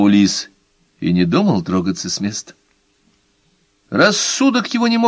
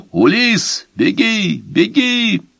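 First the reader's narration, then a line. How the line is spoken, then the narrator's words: Shouting. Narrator (Russian): крикнул ему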